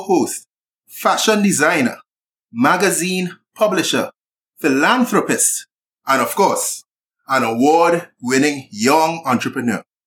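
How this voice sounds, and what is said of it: Sing-song Trinidadian accent. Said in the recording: “Not with the sing-song accent ... I'm not dissing your accent ... Trini accent”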